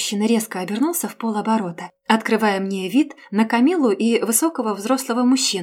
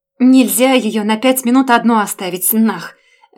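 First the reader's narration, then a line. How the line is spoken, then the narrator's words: Bark. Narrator (Russian): Рявкнул он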